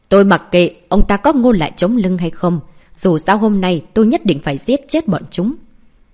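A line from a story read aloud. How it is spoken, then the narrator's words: Angry bark. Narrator (Vietnamese): Tam trưởng lão ngay lập tức tỏ vẻ không vui, tức giận quát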